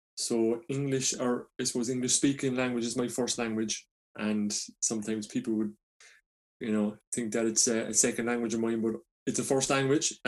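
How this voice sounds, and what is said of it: Irish Cork accent, fast speech. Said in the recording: “As you can see from my accent, you're like, where is this person from? ... speaking very fast is, you know, a part of where I'm from. So I'm from a place in Ireland called Cork.”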